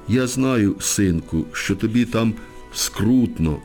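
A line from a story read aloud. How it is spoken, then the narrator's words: Sobbing woman. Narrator (Ukrainian): схлипує вона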